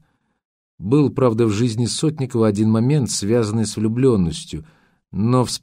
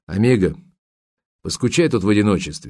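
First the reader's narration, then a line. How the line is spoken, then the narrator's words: Matter-of-fact tone. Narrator (Russian): сказал он будничным тоном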